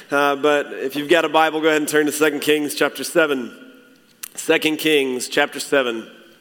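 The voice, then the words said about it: Hoarse, croaky voice. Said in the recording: “I've been under the weather the past few days, so my voice is struggling a little bit this morning. So I'll probably croak and sound like I'm going through puberty again.”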